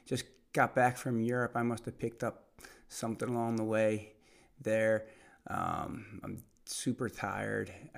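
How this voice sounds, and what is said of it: Hoarse, nearly lost voice. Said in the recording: “You might be able to tell I kind of have lost my voice.”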